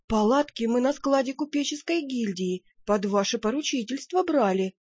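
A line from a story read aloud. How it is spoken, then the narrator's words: Timid. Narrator (Russian): робко подал голос секретарь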